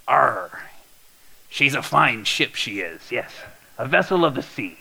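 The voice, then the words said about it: Pirate character voice. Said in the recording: “in a pirate voice”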